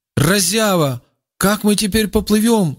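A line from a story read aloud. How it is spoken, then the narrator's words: Shouting. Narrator (Russian): закричал Рауф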